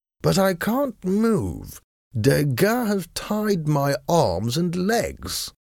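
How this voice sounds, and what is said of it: Bored-sounding character voice. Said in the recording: “in his bored voice.”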